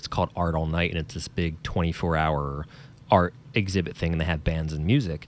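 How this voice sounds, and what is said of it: New Jersey accent. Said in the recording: “New Jersey, if you couldn't tell by my accent, that's where I'm from.”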